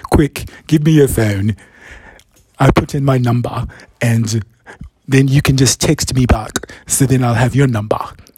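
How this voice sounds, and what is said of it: Badly done London accent. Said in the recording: “he has a London accent, which I'm going to completely butcher right now.”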